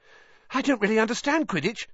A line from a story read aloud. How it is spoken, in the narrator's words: said Colin, breathlessly